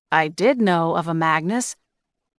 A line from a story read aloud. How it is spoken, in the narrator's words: Caleb said slowly